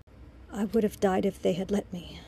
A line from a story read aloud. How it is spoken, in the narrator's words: he breathed